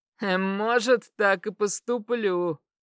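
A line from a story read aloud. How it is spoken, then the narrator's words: Short laugh. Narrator (Russian): хохотнул Ред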